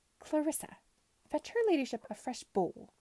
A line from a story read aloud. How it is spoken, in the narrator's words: said with a mirthless laugh